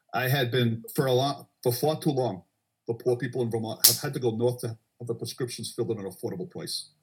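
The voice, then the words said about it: Imitates another person's voice. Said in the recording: “your Bernie Sanders impersonation ... well done, man. ... It's pretty good.”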